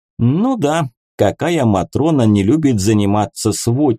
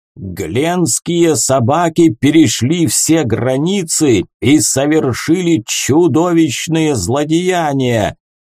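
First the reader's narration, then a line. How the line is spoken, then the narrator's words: Thunderous older man. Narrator (Russian): Громовым голосом провозгласил высокий седой мужчина с орлиным носом, муж Венелины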